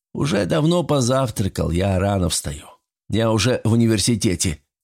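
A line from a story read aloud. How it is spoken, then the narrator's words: Plain. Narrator (Russian): ответил Петр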